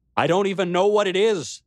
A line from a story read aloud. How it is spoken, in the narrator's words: I cried out to the king, my voice breaking